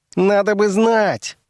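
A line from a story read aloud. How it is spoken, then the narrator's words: Furious shriek. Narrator (Russian): завизжал он вне себя от гнева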